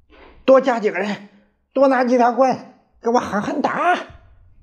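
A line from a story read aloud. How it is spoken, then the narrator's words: Furious yelling. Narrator (Chinese): 县官鼻子都气歪了，脸涨得通红，嚷道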